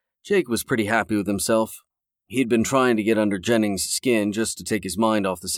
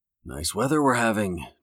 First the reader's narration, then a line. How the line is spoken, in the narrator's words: Jake said under his breath